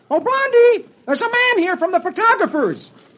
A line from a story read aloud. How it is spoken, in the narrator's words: He shouts